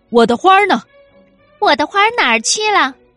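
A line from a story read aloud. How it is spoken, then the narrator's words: Loud clamoring. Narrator (Chinese): 邻居们大声的吵着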